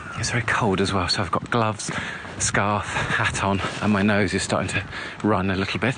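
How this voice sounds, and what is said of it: Slightly out of breath. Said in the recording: “a bit out of breath, walking a bit fast”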